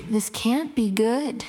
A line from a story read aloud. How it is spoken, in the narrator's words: Whispered softly